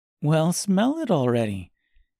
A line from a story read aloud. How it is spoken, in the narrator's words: said Gracia with an encouraging laugh